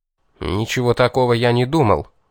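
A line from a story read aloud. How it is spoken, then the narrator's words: Hurt grumbling. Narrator (Russian): уязвленно проворчал я в ответ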